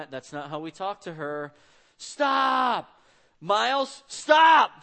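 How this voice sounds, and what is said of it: Frustrated yelling. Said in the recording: “Stop yelling at your sister! ... I'm telling him, don't yell, but as I'm getting more and more frustrated ... when you're yelling at your kids”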